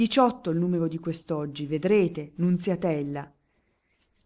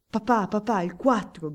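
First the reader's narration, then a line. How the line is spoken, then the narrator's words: Boys shouting amid whispers. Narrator (Italian): gridano i ragazzi in mezzo al sussurro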